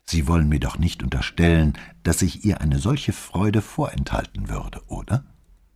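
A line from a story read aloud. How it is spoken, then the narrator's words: Calm. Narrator (German): Brunettis Stimme war ebenso ruhig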